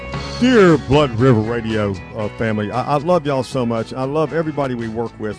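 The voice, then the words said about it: Slightly hoarse voice. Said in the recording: “my throat's a bit hoarse.”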